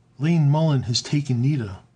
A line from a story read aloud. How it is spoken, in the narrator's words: cried